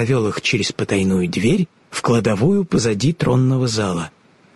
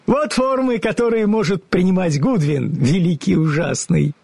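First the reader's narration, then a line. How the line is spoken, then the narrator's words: Laughing. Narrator (Russian): смеясь сказал разоблаченный волшебник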